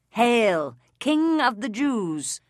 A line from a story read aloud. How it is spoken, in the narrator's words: they mocked him